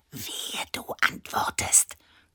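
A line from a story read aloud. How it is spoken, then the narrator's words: Hissed. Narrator (German): zischte Annabella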